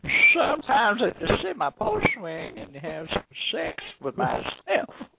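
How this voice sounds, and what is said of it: Put-on Southern accent. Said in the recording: “could do a good southern voice”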